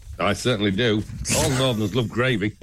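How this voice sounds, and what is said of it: Polished radio presenter voice. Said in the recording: “You said that in your radio voice.”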